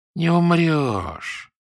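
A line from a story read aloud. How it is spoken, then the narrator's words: Conciliatory sympathetic drawl, guard. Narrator (Russian): примирительно и даже сочувственно протянул вертухай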